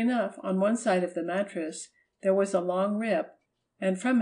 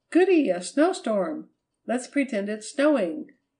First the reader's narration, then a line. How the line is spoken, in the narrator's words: Marjorie cried